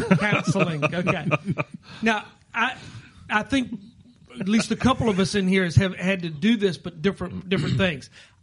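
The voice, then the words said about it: Southern American accent. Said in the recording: “That's that southern accent.”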